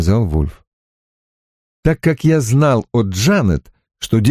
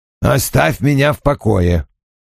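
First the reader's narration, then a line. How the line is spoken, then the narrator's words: Grumbled. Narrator (Russian): проворчал он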